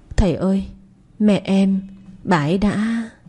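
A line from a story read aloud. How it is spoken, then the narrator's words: Child, choked and tearful. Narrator (Vietnamese): thằng nhỏ mếu máo, nghẹn ngào mở lời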